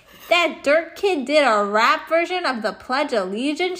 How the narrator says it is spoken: she shouted

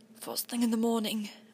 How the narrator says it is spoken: I said hoarsely

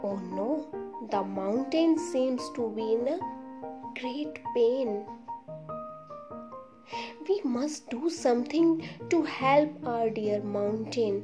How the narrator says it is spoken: said another

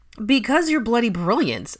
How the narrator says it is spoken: exclaimed Theo

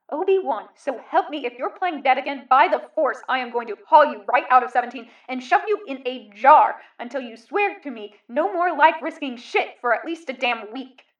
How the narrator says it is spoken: the man roared, almost at full volume, in a voice completely different from Kenobi or any of the clones

